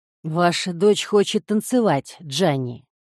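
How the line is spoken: Good-natured strange hoarse voice. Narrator (Russian): добродушно произнес мистер Костелло странным хриплым голосом

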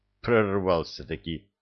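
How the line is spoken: Muttered. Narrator (Russian): пробормотал Кевин

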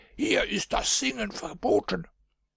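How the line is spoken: Guards shouting. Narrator (German): die Wächter schrien den Buben an

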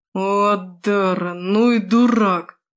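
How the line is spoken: Moan. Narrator (Russian): простонала Эйталь

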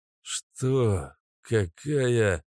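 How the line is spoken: Mumbling. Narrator (Russian): начал мямлить Кэша

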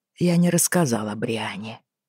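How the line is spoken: Quiet reply. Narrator (Russian): тихо ответил он

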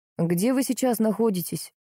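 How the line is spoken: Plain. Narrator (Russian): спросил мой целитель

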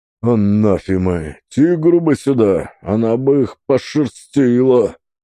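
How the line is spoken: Deep booming cursing voice. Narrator (Russian): Кляня, на чем свет волков, басил Сафрон

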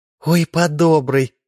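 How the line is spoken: Exclamation. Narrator (Russian): воскликнула красавица

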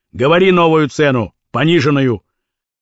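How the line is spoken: Plain. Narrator (Russian): Черноусый сказал

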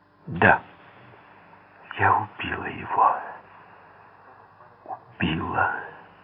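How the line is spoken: Near whisper. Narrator (Russian): почти шепотом сказала она

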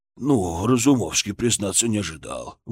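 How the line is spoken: Breathed out. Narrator (Russian): выдохнул он

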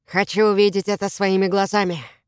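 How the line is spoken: Plain. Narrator (Russian): сказал Воллер

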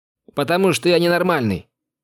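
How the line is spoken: Shouting at closed door. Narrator (Russian): крикнул я уже в закрытую дверь

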